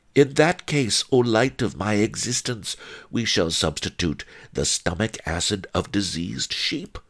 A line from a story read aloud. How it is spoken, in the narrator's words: One-Eyed Wong said calmly